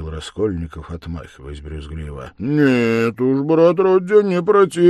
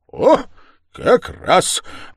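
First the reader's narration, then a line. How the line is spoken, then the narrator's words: Solemn exclamation. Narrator (Russian): воскликнул торжественно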